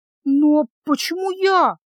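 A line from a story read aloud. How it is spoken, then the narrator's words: Frightened squeak. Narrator (Russian): испуганно пискнула невидимка, вспомнив про холод и тьму, которые вызвали у нее ужас в прошлый раз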